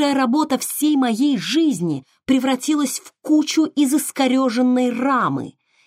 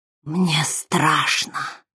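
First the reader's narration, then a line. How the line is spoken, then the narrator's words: Astonished whisper. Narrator (Russian): прошептал голосом, полным изумления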